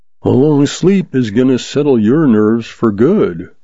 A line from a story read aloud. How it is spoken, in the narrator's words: Callan's soft voice purred behind him